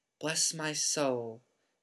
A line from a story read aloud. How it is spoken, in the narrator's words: whispered the old bartender